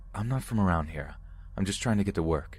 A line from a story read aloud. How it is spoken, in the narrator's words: I responded in a firm tone